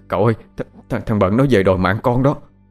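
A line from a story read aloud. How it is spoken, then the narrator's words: Trembling voice. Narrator (Vietnamese): Thằng Đen giọng run run nó nói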